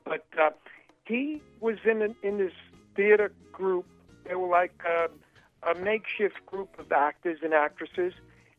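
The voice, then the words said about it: New York accent. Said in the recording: “I'm a New York guy, so I have a New York accent.”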